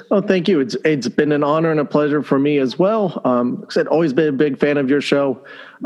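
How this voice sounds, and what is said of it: Speaks with a noticeable accent. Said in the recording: “putting up with me and my accent”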